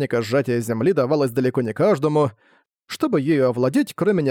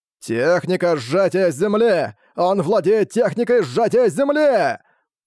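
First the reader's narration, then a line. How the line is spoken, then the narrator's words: Inward shout. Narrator (Russian): про себя он выкрикнул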